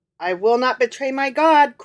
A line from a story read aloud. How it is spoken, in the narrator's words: cried the boy